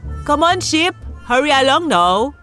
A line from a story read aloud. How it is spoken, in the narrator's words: He then called out